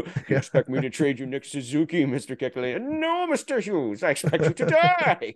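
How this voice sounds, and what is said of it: Deliberately bad Bond-villain impression. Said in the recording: “he kind of sounds like a Bond villain ... very, very bad impression of Sean Connery Bond”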